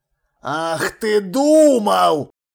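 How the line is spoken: Growled. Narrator (Russian): прорычал он

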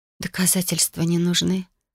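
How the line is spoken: Whispered. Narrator (Russian): прошептала я

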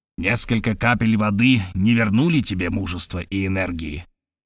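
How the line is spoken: Strange voice. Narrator (Russian): продолжал профессор странным голосом

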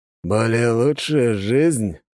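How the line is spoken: Skeptical snort. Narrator (Russian): хмыкнул Алекс

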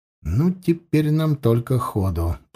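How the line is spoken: Muttered. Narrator (Russian): пробормотал Ветров

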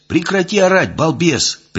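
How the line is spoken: Sharp shout. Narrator (Russian): прикрикнул я

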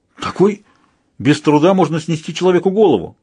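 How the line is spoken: Exclaimed. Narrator (Russian): воскликнул Лобсанг

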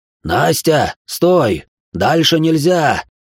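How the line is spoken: Growled command. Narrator (Russian): прорычал Махан

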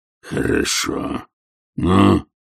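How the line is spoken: Questioning growl. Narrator (Russian): вопросительно прорычал он

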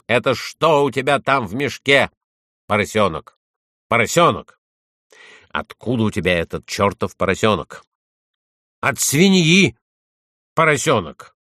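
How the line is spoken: Barked. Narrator (Russian): Полицейский чиновник рявкнул

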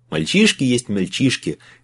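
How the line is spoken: Chuckling. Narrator (Russian): хохотнул адмирал Нейсмит

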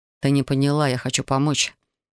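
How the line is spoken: Gentle explanation. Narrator (Russian): мягко пояснил он

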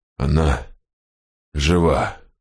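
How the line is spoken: Strained, forced out. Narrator (Russian): кое-как выдавил Вен

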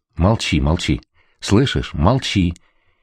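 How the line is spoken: Frightened whisper. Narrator (Russian): испуганно зашептала она

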